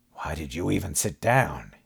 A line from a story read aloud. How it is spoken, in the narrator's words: he muttered